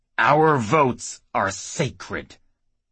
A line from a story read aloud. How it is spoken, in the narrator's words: the old frailing said through clenched teeth